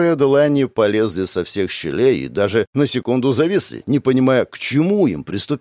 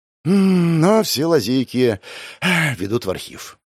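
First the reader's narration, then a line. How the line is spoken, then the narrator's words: Sighed. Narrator (Russian): вздохнул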